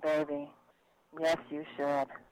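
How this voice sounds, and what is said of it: Sultry, seductive voice. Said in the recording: “sexy voice ... Make it all sultry.”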